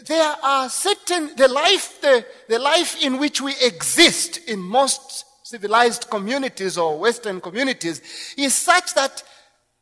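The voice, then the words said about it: Zambian accent. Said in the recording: “As you can tell from my accent, I'm not from this society or this country. I'm from Zambia.”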